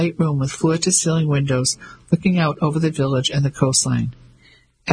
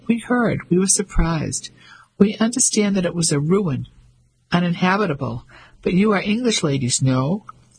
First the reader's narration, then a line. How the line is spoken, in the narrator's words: His voice was light and quite high